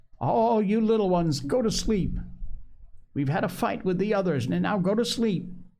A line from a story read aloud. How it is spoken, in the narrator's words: Ralph called out in a quavering voice